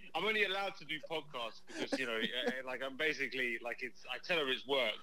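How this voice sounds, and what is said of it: Proper-sounding foreign accent. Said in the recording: “of course we love your accent, of course, and it's just so much fun and so very proper”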